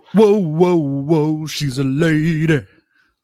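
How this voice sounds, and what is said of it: Imitates another person's singing voice. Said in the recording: “That was my great value. ... Tom Jones impression.”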